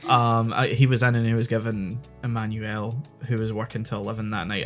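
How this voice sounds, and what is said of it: Scottish accent, Glasgow-Edinburgh mix. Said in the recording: “I'm slipping into my natural accent ... somewhere between like a Weegie accent and ... a Edinburgh accent”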